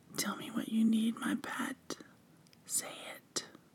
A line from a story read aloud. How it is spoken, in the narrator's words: you whispered in my ear